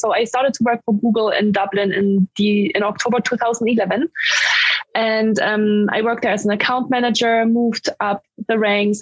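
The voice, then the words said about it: German accent in English. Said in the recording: “I'm from Germany, because people wonder where my accent is from when I speak English”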